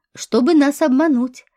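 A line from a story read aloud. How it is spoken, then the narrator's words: Laughing. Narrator (Russian): рассмеялся Нагиев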